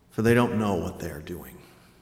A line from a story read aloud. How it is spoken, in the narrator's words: murmured from the cross